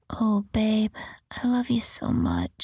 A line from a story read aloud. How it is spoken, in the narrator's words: she moaned